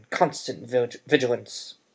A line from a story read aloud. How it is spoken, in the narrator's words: he barked